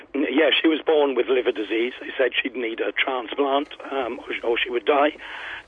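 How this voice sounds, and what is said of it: Croaky, failing voice. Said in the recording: “I've got to apologise for the croaky voice. I'm losing my voice today.”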